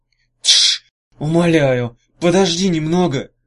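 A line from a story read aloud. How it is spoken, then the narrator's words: Urgent hiss. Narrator (Russian): прошипел Иссёрх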